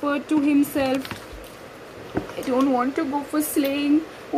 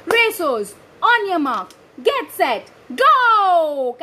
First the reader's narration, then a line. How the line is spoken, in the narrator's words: Cash shouted